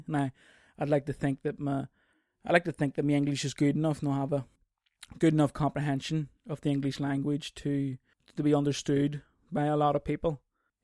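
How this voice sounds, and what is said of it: Discernible non-native English accent. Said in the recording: “although I speak English, I have an accent ... it's a discernible accent ... maybe just the accent's too thick”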